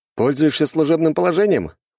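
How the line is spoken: Smirking grunt. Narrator (Russian): хмыкнул я

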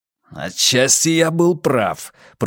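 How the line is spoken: Growling. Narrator (Russian): прорычал Каз

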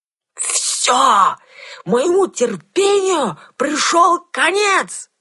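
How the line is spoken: Loud yelling. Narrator (Russian): заорал

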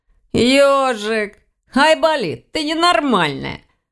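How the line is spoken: Laughing. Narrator (Russian): рассмеялся Ваня

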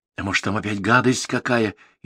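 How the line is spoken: Frightened question. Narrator (Russian): испуганно спросил Верный

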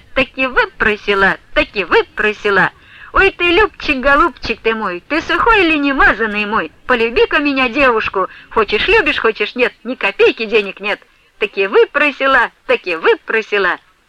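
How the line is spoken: Cheerful singing. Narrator (Russian): весело припевая

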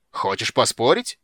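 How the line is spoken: Roaring dwarf. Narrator (Russian): взревел гном

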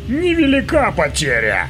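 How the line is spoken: Snorting hmph. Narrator (Russian): хмыкнул Билл

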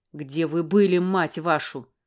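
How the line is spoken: Angry bark. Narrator (Russian): рявкнул он снова

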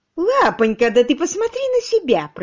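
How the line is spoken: Squeaky voice. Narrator (Russian): пропищала она

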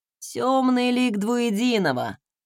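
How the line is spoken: Muttered through teeth. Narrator (Russian): процедил тот

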